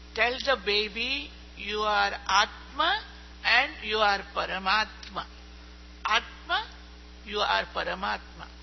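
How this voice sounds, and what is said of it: Strong accent, hard to follow. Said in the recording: “I'm having a little problem with the accent.”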